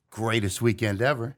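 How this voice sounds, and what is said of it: Sarcastic delivery. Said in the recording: “You think I'm being sarcastic? ... Like, you're being sarcastic. ... You just put quotes around it.”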